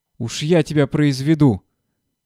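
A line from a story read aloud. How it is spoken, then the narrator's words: Shouting. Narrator (Russian): кричал Порфир Порфирыч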